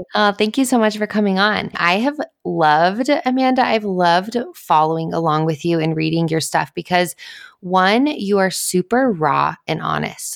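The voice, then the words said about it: Congested, cold-affected voice. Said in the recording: “I apologize in advance for my voice. ... I have a little bit of a cold.”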